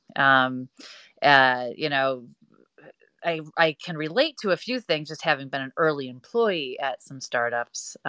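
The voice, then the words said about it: Wisconsin accent. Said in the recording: “I'm more of the Wisconsin accent”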